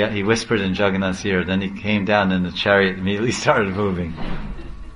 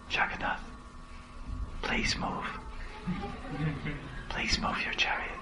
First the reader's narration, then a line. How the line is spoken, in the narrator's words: he whispered in his ear